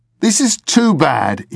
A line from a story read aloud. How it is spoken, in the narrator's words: he exclaimed